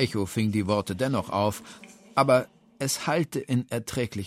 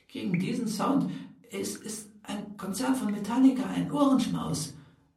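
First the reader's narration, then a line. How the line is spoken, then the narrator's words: Whispering back. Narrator (German): wisperte Steni zurück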